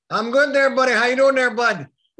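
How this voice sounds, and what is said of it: Put-on Maritime Canadian accent. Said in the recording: “that's maritime talk ... I gotta ditch my Fargo accent here and get into like the Jimmy Flynn talk”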